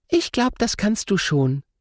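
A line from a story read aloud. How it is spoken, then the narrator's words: Cheerful. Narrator (German): sagt Lotta fröhlich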